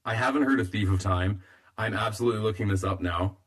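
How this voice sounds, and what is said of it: Strained, fading voice. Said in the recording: “I'm losing my voice a little bit.”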